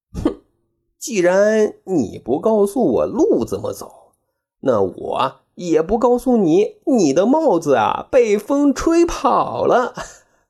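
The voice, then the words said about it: Sour, muttering under breath. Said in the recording (Chinese): “酸溜溜的小声嘀咕”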